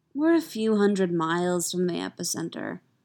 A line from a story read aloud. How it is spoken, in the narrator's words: says Sylvie